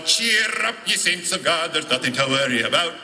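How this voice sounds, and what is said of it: Singing in an Irish accent. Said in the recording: “a guy singing it with an Irish accent”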